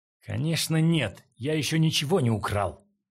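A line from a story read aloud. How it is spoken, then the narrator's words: Shouting. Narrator (Russian): крикнул Линь Хуан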